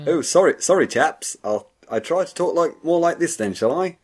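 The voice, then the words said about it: Exaggerated posh British accent. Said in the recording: “Some people don't really believe you're from England ... I'm not British enough.”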